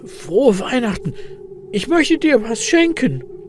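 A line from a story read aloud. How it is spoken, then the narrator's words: Excited croak. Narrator (German): krächzt Elias mit aufgeregter Stimme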